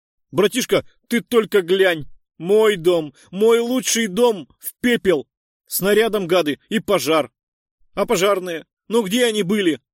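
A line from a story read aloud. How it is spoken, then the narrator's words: Desperate yelling. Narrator (Russian): отчаянно жестикулировал и орал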